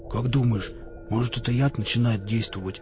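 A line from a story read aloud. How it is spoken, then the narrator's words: Mumbled. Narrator (Russian): промямлил Никита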